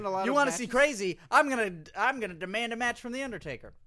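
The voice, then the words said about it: Weak AJ impression. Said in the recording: “your AJ impression needs work.”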